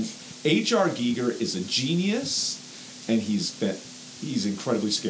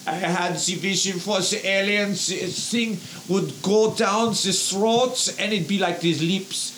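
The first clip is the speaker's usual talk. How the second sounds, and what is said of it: Heavy put-on Austrian accent. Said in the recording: “He talks with, like, this heavy Austrian accent.”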